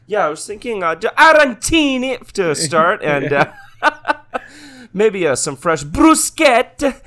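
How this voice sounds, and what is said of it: Panicked put-on Italian accent. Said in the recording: “I do an Italian voice, I have to sound as panicked as possible ... Like you're ordering your food and there's a serial killer at the door ... I get my entire impression from Mario”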